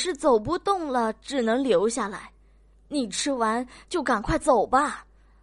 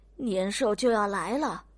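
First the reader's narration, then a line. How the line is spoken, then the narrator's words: Sighing, tearful old woman. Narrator (Chinese): 丁婆婆叹口气，流着泪 最后还说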